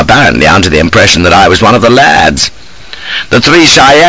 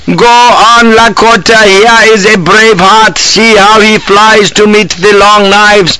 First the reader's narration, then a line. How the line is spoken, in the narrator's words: the dotard was yelling